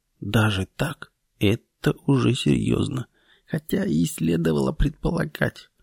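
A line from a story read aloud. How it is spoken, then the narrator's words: Muttering. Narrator (Russian): бормоча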